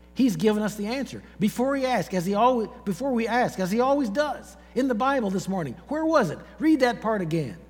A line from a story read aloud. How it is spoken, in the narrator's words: she said excitedly